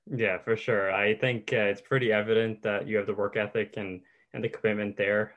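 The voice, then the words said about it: Newfoundland accent. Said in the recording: “coming from Newfoundland with my accent”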